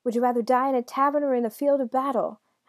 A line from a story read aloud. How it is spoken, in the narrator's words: Hansel cried